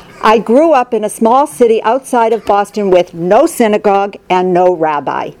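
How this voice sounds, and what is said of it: Slight Boston accent. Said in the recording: “You may have already heard a little Boston accent. I cannot get rid of it.”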